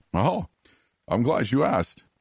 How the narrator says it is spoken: he chuckled

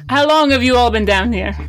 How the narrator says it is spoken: she says, very loudly

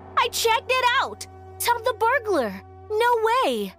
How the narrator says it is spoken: She was screaming

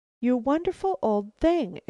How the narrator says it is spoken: exclaimed Caroline

